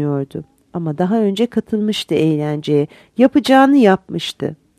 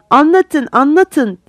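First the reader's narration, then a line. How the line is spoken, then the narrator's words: Shouted together. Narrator (Turkish): diye bağırdılar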